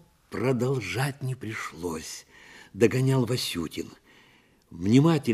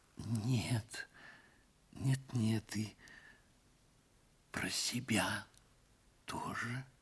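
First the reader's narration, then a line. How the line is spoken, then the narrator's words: Whisper. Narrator (Russian): прошептала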